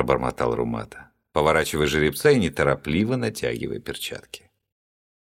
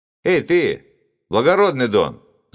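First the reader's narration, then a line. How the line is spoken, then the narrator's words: Shouted. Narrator (Russian): закричал один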